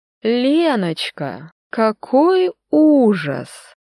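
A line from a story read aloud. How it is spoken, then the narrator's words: Loud falsely sympathetic sing-song. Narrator (Russian): пропела голосом, полным фальшивого участия, но достаточно громко, чтобы слышали все вокруг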